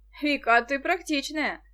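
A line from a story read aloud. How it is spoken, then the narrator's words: Laughing. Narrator (Russian): засмеялся Денис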